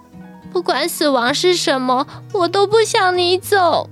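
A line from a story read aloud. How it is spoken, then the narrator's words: Crying. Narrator (Chinese): 宝儿哭着说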